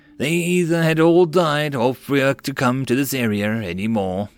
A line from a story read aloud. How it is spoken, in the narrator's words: the man sighed